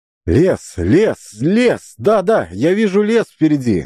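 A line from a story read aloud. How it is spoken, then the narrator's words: Shouting. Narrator (Russian): закричал Ян, на самом деле ничего не видя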